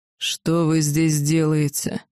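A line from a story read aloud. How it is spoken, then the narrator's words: Angry dragon voice. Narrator (Russian): злобно вопросил дракон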